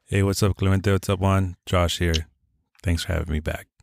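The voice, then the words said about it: Deep, smooth, soothing male voice. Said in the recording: “you got that deep, sexy voice ... really good sounding, smooth voice ... Soothing voice.”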